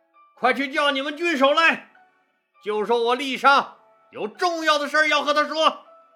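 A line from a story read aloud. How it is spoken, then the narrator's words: Shouting. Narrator (Chinese): 郦商……对着城墙上的守军大喊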